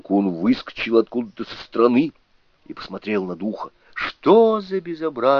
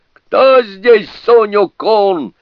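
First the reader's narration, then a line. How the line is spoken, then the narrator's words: Yelling spirit. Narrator (Russian): заорал дух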